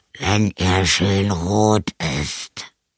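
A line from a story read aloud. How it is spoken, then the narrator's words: Vampire growling from cupboard. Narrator (German): knurrte der Vampir aus dem Schrank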